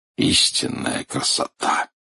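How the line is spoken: Whisper. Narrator (Russian): прошептал Арнольд Джексон

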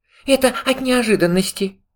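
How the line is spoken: Trembling voice. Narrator (Russian): сказал пятачок дрожащим голосом

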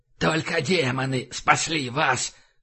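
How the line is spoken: Wheezing rasp. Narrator (Russian): прохрипел он

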